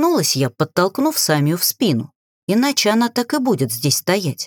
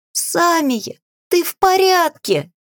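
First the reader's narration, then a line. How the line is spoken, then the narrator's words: Exclaimed. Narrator (Russian): Воскликнула Жасмин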